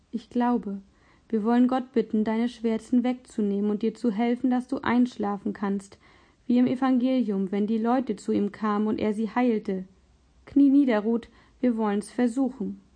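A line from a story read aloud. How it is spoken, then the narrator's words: Gentle. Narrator (German): Nach einem unbehaglichen Schweigen sagte Philipp sanft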